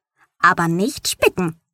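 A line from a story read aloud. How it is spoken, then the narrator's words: Plain. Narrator (German): sagte sie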